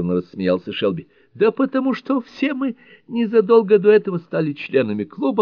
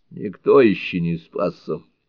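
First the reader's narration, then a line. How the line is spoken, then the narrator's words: Gloomy mutter. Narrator (Russian): мрачно буркнул Рога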